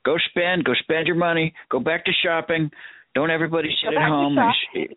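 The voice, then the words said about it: George W. Bush impression. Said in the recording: “Bad George W. impersonation”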